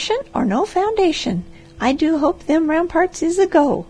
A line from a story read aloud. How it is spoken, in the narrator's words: she cried